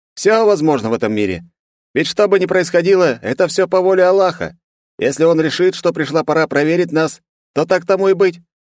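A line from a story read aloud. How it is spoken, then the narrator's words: Calm agreement. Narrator (Russian): спокойно согласился Влад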